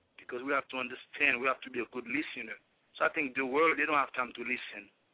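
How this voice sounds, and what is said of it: Heavy French-speaker accent in English. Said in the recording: “we have a French-speaking language. And we have the English is dominant. And as you can see, I have a very heavy accent”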